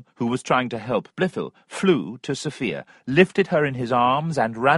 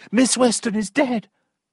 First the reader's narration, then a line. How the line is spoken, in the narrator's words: two or three voices cried out